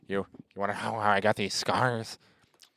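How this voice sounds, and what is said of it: Joker villain voice impression. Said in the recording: “your Richard Nixon sounds very similar to your Joker ... This is also my impression of Heath Ledger”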